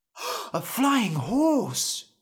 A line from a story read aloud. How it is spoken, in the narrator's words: Norm said, gasping